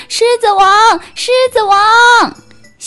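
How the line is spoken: Loud shouting while running. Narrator (Chinese): 一边跑一边大声地呼喊

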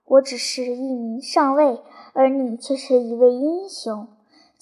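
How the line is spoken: Warm, sweet, meaningful. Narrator (Chinese): 粗暴上尉，却用一种热情、甜蜜而意味深长的语气回答道

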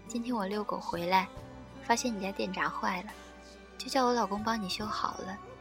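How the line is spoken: Smiling, friendly. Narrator (Chinese): 邻居笑眯眯地说

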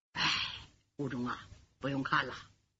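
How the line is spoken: Sighing. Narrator (Chinese): 武大人叹了口气

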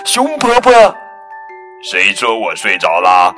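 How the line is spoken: Happy cry. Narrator (Chinese): 蹦蹦高兴的叫道

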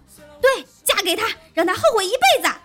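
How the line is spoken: Roar. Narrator (Chinese): 小七大吼道

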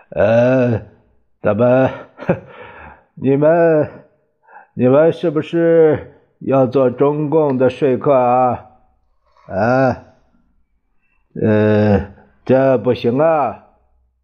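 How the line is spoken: Forced laugh. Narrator (Chinese): 他强笑着说

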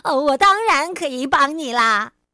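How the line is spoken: Shouting. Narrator (Chinese): 他喊道

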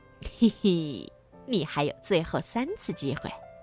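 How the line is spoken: Grinning little goblin. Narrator (Chinese): 小妖怪咧着嘴笑着

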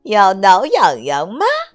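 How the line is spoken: Loud shout. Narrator (Chinese): 他就大声喊了起来

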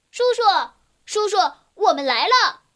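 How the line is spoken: Loud shout. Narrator (Chinese): 鲁鲁……大声的叫起来

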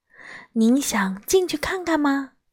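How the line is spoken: Soft voice. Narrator (Chinese): 我轻声说

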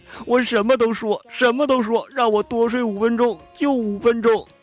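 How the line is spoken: Crying and shouting. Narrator (Chinese): 恐怖分子连哭带喊

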